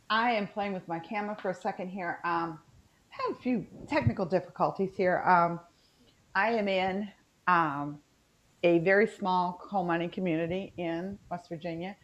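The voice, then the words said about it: Natural West Virginia Southern accent. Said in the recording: “My accent, I'm sorry, I apologize now because it's been slipping in and out ... it's so bad. I know, it's terrible ... This is my natural accent.”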